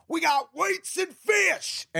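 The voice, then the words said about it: Angry screaming imitation of a man. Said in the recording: “do my best impression of this guy ... he screams ... The level of anger that this guy was at”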